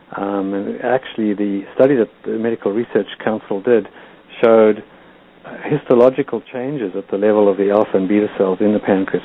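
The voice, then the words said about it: South African accent. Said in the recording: “you are obviously from South Africa, I can tell by your accent”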